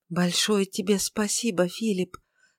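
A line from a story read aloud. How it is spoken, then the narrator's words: Embarrassed mumble. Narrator (Russian): смущенно пробормотала она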